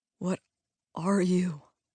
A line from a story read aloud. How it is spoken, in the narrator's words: Peter said, his voice quavering